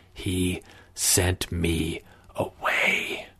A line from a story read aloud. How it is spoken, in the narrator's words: Connell whispered